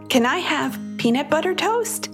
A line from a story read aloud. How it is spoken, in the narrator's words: Callie asked